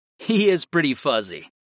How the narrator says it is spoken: I laughed

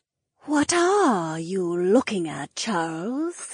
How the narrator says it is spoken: the snake woman purred

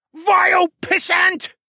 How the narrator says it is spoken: the red panda man roared

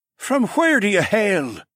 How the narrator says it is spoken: someone else piped up

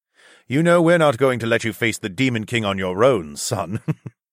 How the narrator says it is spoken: Zoklan chuckled

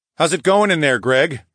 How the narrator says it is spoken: I called out

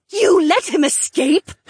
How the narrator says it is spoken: Helmy shrieked

